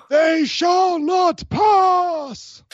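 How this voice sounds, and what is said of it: Gandalf impression, grand wizard voice. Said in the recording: “let's see if I can do my best Gandalf impression”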